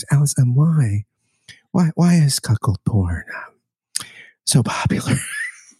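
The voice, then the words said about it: NPR radio host impression voice. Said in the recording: “It's like NPR. ... do my Terry Gross voice.”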